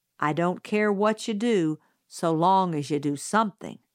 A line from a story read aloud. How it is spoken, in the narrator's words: said Atticus